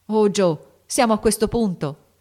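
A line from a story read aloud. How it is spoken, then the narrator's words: Frightened shout. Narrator (Italian): gridò Lori col volto spaventato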